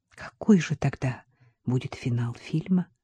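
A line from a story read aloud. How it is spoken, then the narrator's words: Whispered question. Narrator (Russian): шепотом спросила Катя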